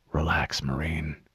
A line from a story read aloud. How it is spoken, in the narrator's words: whispered